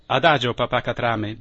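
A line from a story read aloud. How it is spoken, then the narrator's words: Plain. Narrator (Italian): disse il capitano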